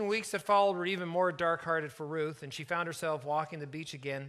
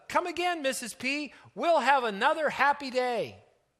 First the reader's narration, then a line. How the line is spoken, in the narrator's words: Wendy called out